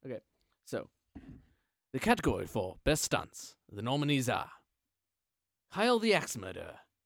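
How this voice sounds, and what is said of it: Oscars announcer-style voice. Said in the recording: “I guess I have to do the voice ... The Oscar voice, sort of like that”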